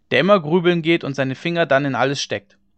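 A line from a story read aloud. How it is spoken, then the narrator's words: Called out. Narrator (German): rief einer von den Gestleuten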